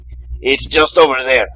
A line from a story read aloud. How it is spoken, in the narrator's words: Antonio yelled back to Martin